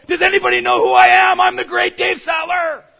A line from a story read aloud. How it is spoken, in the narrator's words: I found myself wanting to shout out